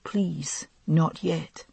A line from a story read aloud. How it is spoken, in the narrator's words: the cracked lips were muttering